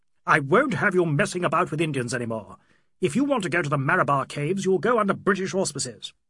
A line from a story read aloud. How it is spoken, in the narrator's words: Tired and disappointed, he quite lost self-control and added in a loud, lecturing voice